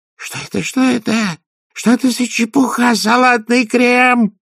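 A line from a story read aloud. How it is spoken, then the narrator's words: Shrill squeal. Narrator (Russian): завизжал ревизор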